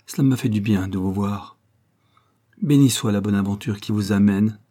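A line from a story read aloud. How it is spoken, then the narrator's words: Mournful voice. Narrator (French): dit-il d'une voix dolente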